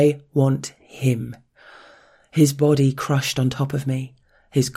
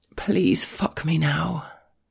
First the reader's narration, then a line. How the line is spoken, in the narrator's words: I murmur